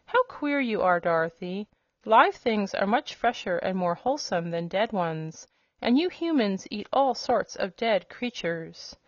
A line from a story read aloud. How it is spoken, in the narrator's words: returned the hen, in a puzzled tone